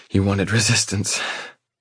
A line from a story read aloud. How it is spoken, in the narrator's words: she rasps